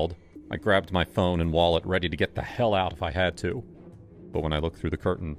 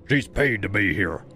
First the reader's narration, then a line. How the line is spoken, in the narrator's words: the tallest one barked